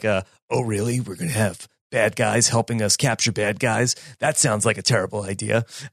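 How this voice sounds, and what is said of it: Imitates Batman's voice. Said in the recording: “great impersonation”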